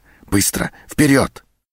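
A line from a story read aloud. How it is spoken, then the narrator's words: Furious whisper. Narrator (Russian): сержант яростным шепотом бросил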